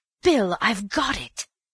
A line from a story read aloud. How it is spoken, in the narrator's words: he cried